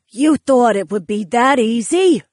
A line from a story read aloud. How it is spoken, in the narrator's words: Eudora sneered from her position high above us